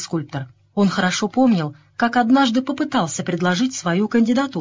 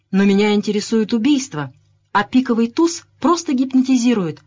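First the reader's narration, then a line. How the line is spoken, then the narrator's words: Exclaimed. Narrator (Russian): воскликнула миссис Ленокс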